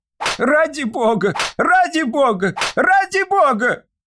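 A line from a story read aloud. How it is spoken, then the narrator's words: Desperate shouting. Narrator (Russian): кричал несчастный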